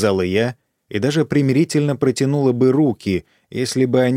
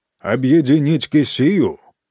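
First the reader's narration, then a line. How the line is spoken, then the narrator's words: Loud repetition. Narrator (Russian): громко повторил лорд Уэмада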